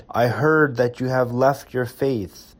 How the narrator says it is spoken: he shouted

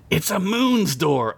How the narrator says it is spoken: Ugla said excitedly

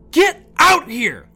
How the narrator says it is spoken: Lydia yelled in frustration

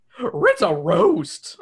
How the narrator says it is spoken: Scooby yelps

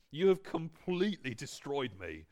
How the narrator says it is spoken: he cried

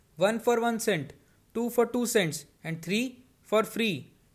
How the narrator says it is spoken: yelled the old man

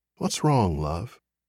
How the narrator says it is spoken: Lizzie whispered

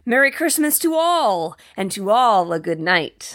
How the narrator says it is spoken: I heard him exclaim as he drove out of sight

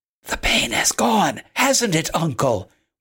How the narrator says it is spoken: whispered Manolita

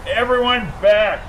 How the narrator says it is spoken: yelled the officers

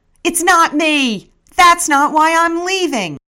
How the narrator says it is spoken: shout at the stage

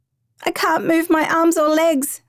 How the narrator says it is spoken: Samara cries

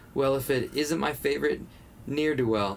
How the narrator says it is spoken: Russell chuckled

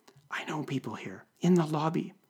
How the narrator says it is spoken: whispered

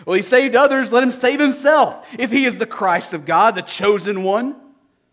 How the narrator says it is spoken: the rulers scoffed at him, saying

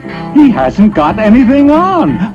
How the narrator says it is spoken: the whole town cried out at last

